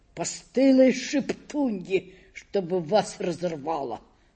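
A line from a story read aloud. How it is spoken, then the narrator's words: Muttering. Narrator (Russian): бормотал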